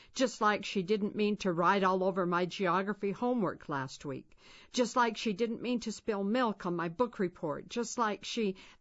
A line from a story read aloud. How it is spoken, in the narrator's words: Jared said bitterly